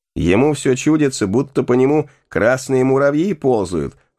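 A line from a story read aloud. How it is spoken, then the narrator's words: Loud laughter. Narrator (Russian): с хохотом сказала одна из женщин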